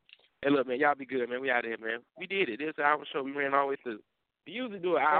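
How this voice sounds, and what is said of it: Usual voice. Nothing is said of it.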